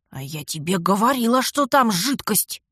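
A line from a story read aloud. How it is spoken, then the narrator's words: Vengeful hiss. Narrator (Russian): мстительно прошипела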